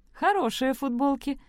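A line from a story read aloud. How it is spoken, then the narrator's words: Laughing. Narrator (Russian): засмеялась Элли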